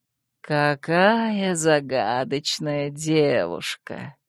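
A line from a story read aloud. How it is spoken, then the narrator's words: Purring. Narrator (Russian): едва не урча промурлыкал верпант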